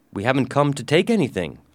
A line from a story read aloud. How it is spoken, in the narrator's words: I said